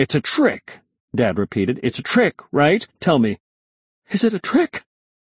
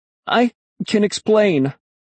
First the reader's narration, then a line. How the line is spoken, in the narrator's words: I stammered